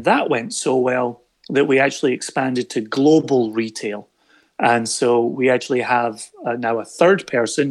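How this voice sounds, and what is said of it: Scottish accent. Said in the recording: “You were from Scotland with that accent.”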